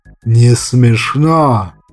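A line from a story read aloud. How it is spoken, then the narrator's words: Growl. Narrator (Russian): рыкнул азиат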